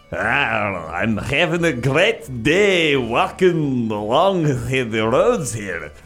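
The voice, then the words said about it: Lazy put-on Scottish accent. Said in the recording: “lazy Scottish hikers ... I'm going to make this accent pretty lazy as well.”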